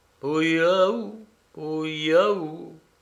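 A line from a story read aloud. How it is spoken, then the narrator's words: Sad repetition. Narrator (French): répétais-je tristement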